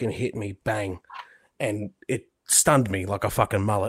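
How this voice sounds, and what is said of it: Usual voice. Nothing is said of it.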